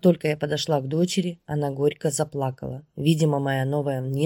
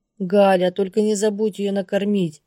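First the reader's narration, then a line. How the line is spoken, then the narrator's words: Shout. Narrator (Russian): крикнула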